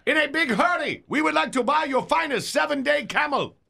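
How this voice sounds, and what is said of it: Hard-to-place foreign accent. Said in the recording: “I can't pinpoint that accent.”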